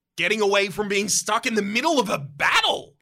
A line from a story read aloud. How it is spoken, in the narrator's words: You shout back